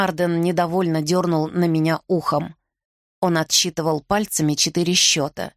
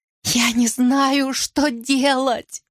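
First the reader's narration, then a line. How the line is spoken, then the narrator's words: Choked out between sobs. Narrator (Russian): Кое-как выговорила она между всхлипами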